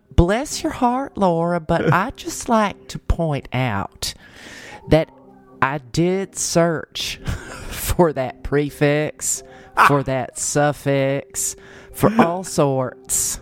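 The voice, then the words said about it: Put-on Southern American woman's accent. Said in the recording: “you're now coming to me with a Southern gal accent ... in whatever accent I choose to use”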